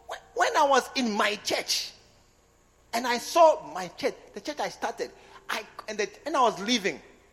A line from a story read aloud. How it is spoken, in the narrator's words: I cried